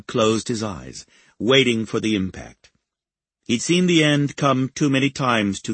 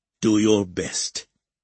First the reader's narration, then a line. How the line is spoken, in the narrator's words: He growled